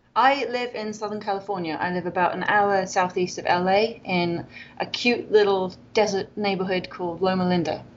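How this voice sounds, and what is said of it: British accent. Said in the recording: “you are obviously British from your voice, we can tell.”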